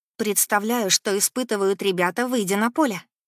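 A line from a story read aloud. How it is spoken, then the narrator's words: Plain. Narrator (Russian): говорит Саша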